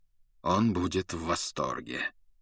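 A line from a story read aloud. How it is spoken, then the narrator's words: Cold remark. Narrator (Russian): холодно заметил Люпин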